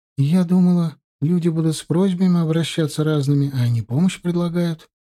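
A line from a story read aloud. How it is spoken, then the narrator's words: Joyful female remark. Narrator (Russian): радостно заметила соседка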